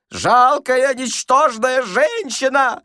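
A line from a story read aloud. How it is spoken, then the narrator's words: Shouted. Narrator (Russian): кричал Паниковский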